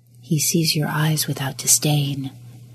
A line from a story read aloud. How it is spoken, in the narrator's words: a voice whispered in the back corners of his mind